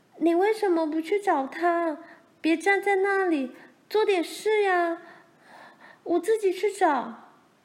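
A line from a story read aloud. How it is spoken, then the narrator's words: Loud shout. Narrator (Chinese): 玲玲大声叫着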